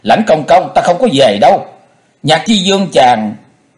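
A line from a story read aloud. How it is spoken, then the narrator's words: Surprised angry shout. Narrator (Vietnamese): Chu Di vừa ngạc nhiên vừa giận dữ, nàng giãy nảy hét lên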